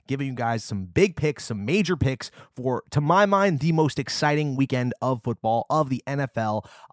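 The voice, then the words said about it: Sick, strained voice. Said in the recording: “I apologize for my voice. Once again, I am sick somehow still”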